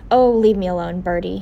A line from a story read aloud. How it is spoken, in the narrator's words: spat